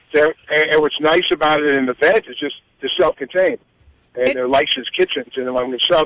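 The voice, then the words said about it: New York accent. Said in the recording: “I love that you keep your New York accent.”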